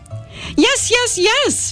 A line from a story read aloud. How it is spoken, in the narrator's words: shouted into the phone